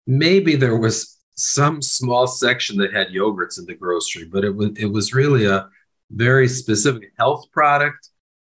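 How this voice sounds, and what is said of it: American accent. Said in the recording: “I grew up, of course, in the United States. That's obvious from my accent.”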